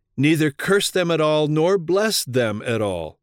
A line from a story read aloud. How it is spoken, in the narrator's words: The king of Moab, disheartened and distressed, exclaimed